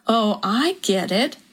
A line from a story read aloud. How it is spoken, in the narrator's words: Lorinda said slowly